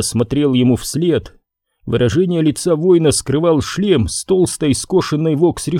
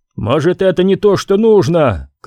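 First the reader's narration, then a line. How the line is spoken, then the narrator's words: Shouted. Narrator (Russian): крикнул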